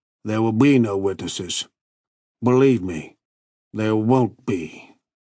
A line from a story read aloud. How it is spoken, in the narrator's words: Berwick said quietly